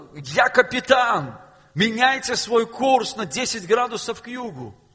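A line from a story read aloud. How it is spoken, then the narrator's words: Shout. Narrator (Russian): снова просто прокричал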